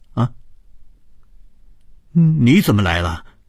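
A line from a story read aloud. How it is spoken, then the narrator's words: Startled cry. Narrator (Chinese): 高伟发出了一声惊叫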